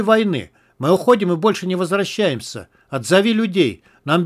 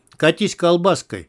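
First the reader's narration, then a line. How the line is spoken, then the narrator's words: Rude gruff advice. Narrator (Russian): грубо посоветовал подполковник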